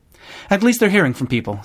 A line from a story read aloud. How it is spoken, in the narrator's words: said Jenny